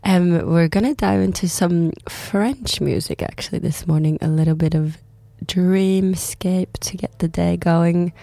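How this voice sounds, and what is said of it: Raspy, sick-sounding voice. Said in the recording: “My voice is a bit raspy. I've been sick for like a week ... I'm sounding a bit different”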